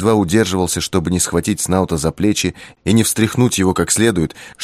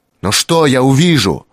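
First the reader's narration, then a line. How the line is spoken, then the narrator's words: Probably shouted. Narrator (Russian): Я, наверное, крикнул это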